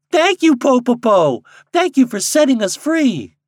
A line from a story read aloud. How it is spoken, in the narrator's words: the birds cried